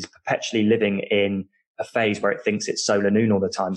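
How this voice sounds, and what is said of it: British accent. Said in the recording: “people can tell from my accent that I'm British”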